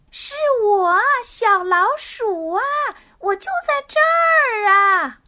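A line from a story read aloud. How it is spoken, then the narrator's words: Loud. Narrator (Chinese): 小老鼠大声地说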